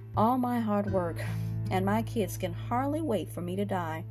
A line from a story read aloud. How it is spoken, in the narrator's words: Another man who had worked hard and managed his money, well, said sadly